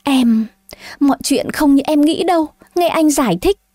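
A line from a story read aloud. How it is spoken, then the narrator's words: Panicked stammer. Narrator (Vietnamese): Thế Liên Đạo hoảng hốt mà lắp bắp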